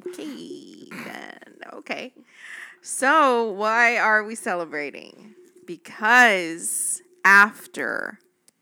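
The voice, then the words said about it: Screaming, very loud voice. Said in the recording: “Am I being too loud? ... now you're screaming ... There's a lot of noise.”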